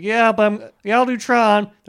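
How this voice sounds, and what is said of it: Jeff Bridges impression, slightly louder. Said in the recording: “my Jeff Bridges impression, just talking slightly louder ... he kind of just talks like this ... He's just like a loud guy.”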